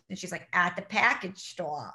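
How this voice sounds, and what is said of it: Imitated Boston accent. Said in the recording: “She like, said it like that, like she was in Boston... some accent.”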